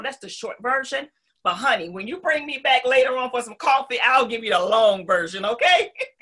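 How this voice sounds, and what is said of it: Southern US accent. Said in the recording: “what was considered my weakness as now one of my signature sauces, my accent... coming from North Carolina”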